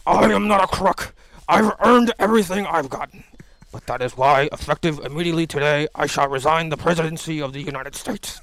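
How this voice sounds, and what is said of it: Impression of Richard Nixon. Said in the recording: “I can do a pretty good Nixon, too.”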